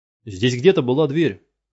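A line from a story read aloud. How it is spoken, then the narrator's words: Shout. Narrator (Russian): крикнул он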